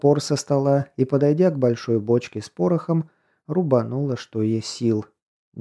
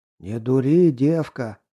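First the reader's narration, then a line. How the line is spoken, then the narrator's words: Hoarse croak. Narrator (Russian): прохрипел карп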